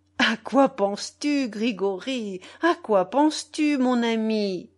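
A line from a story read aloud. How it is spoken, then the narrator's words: Grandmother laughing reply. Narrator (French): répondit grand-mère en riant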